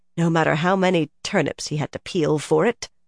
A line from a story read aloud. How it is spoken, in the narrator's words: Nynaeve muttered